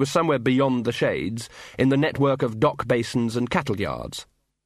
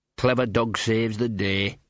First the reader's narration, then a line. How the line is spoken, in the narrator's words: he muttered